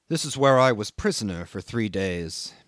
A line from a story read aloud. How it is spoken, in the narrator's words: he murmured to me